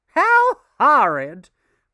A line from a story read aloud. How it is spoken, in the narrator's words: cried Mrs